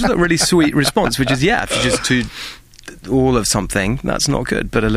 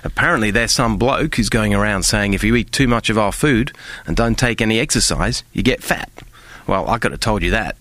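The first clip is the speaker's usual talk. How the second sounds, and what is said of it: Deliberately bad Australian accent. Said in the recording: “I'm going to now attempt very badly an Australian accent.”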